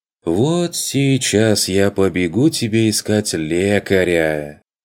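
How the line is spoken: Sarcastic sing-song girlish voice. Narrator (Russian): Язвительно отозвался курсант поющим девичьим голоском

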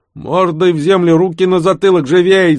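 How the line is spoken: Yell. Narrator (Russian): заорал старший

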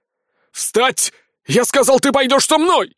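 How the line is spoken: Barked shout. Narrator (Russian): гаркнул придурок

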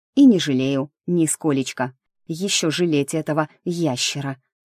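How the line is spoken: Very quiet. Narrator (Russian): добавила совсем тихо

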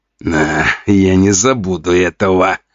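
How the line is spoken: Hiss through gritted teeth. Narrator (Russian): скрипя зубами, прошипел Жуков

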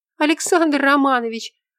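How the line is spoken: Joyful shout. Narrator (Russian): закричала Настя

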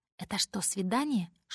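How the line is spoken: Whispered question. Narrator (Russian): шепотом спрашивает Тезер

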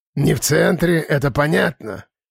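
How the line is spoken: Grumbling. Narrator (Russian): проворчал

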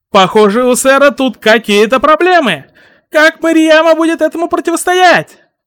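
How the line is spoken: Shouting. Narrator (Russian): Крикнул Сущий Миг

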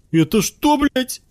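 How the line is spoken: Shrill squeal. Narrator (Russian): взвизгнул Костик

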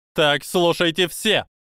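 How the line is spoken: Barking command. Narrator (Russian): рявкнула Амелия

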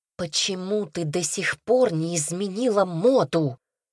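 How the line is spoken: Hissing. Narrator (Russian): прошипела

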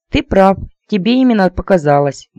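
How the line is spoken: Cheerful, chewing. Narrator (Russian): бодро прочавкала я

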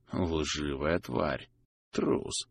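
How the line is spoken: Whisper. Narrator (Russian): шепнул Либель, сокрушенно помотав головой

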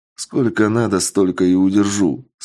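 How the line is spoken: Calm. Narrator (Russian): спокойно ответил я

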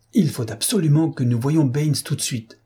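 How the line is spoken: Exclaimed. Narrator (French): s'exclama Holmes

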